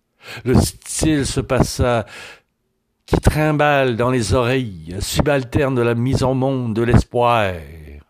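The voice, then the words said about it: Fussy France French accent. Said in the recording (French): “mon accent de français de France, pointilleux, trou de cul de poule”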